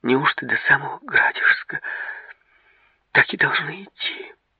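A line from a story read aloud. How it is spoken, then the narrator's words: Sighing. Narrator (Russian): Георгий вздохнул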